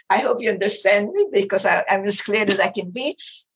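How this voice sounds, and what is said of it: Speaks with a noticeable accent. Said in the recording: “my accident voice ... He couldn't stand my accent. I cannot understand you.”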